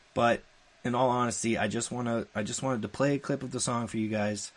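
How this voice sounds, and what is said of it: Choked-up emotional voice with pauses. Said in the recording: “I'm getting choked up again ... I keep taking long pauses because I'm getting choked up.”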